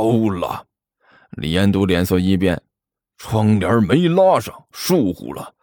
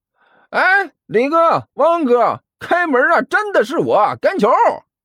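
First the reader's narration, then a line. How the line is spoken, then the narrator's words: Loud shout from outside. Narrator (Chinese): 甘球站在窗户外面大声喊道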